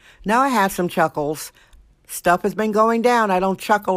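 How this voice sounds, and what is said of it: Usual voice. Nothing is said of it.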